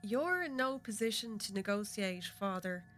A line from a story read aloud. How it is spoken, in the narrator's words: Brez responds with a sigh